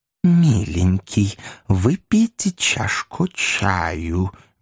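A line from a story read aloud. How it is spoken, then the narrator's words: Honeyed offering voice. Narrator (Russian): медовым голосом предложила смазливая особа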